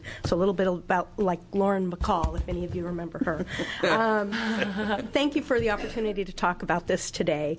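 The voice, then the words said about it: Voice affected by a cold. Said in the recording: “excuse my voice. I have a little bit of a cold”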